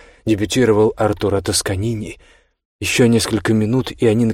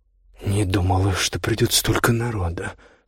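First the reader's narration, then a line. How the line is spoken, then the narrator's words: Anxious mutter. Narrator (Russian): встревоженно пробормотала Хедвиг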